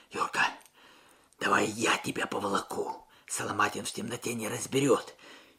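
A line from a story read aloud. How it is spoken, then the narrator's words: Whisper. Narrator (Russian): прошептал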